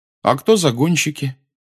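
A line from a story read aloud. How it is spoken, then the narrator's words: Forced even voice. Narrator (Russian): по возможности, ровным голосом спросил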